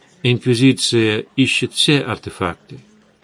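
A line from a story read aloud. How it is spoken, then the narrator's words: Calm reply. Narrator (Russian): спокойно ответил Эдгар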